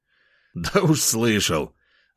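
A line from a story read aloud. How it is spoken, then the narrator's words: Laughing. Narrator (Russian): рассмеялся я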